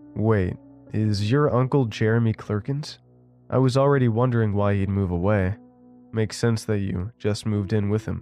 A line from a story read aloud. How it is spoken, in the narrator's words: I said